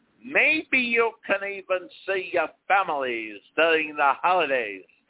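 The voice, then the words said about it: Warlock-style impression of Fauci. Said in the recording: “that warlock style he uses ... Not a great imitation, but yeah, that's better”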